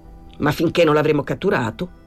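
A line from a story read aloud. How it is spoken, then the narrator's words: Plain. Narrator (Italian): disse Pablo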